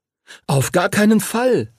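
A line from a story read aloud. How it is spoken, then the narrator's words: Called out. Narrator (German): rief Henry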